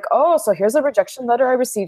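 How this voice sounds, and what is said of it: Put-on thick Bavarian German accent. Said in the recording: “Like he's from Germany, like thick Bavarian accent.”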